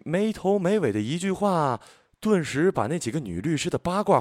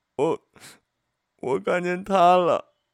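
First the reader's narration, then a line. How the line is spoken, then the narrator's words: Crying. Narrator (Chinese): 她哭着说了一句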